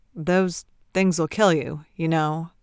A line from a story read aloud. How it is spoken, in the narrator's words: Vizhnich grunted